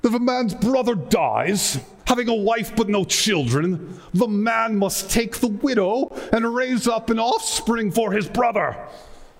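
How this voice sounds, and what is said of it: Put-on erudite, learned-sounding accent. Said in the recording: “you can imagine having like an accent, an erudite accent.”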